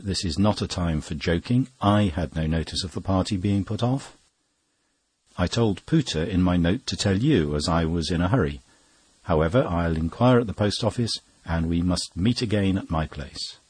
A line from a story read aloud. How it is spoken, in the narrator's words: Cummings sharply said